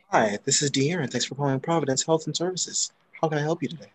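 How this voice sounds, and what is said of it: Fake polite customer-service phone voice. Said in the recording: “putting on my interview voice and that should be fake as hell. I do not sound like this when I'm at work ... your work voice”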